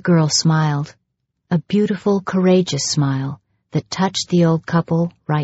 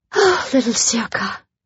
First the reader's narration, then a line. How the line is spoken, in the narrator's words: sighed Genevieve